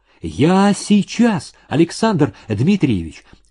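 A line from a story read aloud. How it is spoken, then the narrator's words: Desperate exclamation. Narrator (Russian): отчаянно воскликнула Даша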